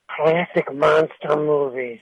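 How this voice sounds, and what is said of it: Imitates another person's voice. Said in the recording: “in my best Peter Lorre voice ... Oh, that was very, very good.”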